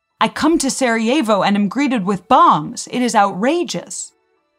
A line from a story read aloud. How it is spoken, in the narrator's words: the Archduke loudly interrupted him, saying